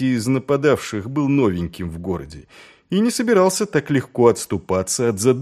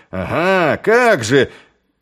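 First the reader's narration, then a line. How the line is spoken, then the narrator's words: Abruptly faltering. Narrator (Russian): вдруг запнулся, ибо ушей его достигло некое рычание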